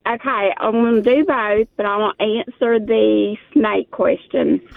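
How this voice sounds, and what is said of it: Southern US drawl. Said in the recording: “I like your accent. ... I love a good Southern draw.”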